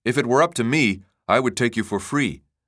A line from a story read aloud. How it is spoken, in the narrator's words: Taucane said